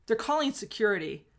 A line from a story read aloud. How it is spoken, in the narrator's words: to yell